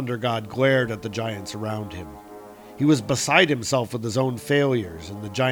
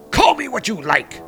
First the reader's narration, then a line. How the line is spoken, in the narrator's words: shouted Thor